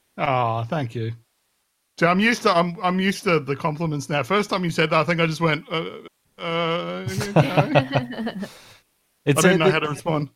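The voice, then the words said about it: Jolly Australian-accented voice. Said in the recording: “You've got such a jolly voice ... The Australian accent is one of the top global accents for sure ... It's rugged yet refined”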